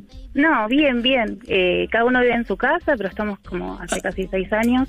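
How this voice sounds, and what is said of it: Girlish, childlike voice. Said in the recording (Spanish): “Tiene voz de niña”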